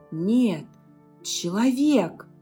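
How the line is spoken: Joyful cry. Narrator (Russian): Радостно вскрикнул Дариан

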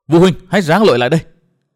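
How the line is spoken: Urgent loud shout. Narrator (Vietnamese): Trước tình hình nguy ngập đó, Nguyên Bình hét lớn

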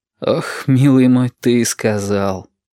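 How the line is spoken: Bitter exhale. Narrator (Russian): горько выдохнул Валентин

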